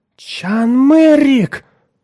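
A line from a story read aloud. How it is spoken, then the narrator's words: Girl's exclamation. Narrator (Russian): воскликнула девушка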